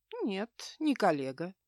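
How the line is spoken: Calm reply. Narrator (Russian): спокойно ответил

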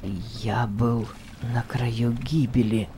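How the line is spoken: Muttering again. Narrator (Russian): пробормотал он еще раз

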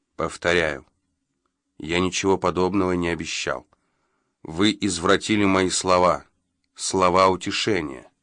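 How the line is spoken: Through gritted teeth. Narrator (Russian): На лице у Джо ходуном заходили желваки, и он проговорил сквозь зубы

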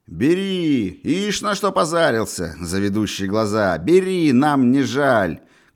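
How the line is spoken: Crowd shouting. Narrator (Russian): кричали в толпе

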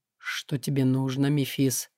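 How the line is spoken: Surprisingly calm question. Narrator (Russian): На удивление совершенно спокойно поинтересовался Акара

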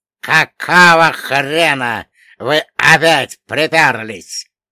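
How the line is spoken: Displeased, menacing creak. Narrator (Russian): недовольно и грозно проскрипел лодочник

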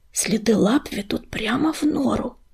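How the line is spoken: Whispering. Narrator (Russian): прошептал Огнезвезд

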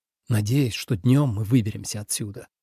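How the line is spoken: Whisper. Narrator (Russian): прошептал Ленард

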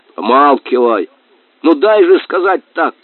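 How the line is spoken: Shouting. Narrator (Russian): крикнул кума

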